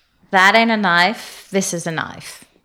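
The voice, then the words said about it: Casual, not over-enunciated Australian accent. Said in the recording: “say it in an Australian accent ... that's pretty good ... That was pretty good ... It was like a casual, not over-enunciated Australian accent ... It was a very nice noise.”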